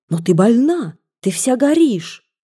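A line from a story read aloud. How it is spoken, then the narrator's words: Exclaimed. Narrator (Russian): она воскликнула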